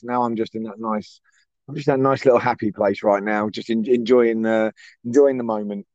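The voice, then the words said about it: Slightly hoarse voice. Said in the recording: “if you can't tell, me I'm a little hoarse.”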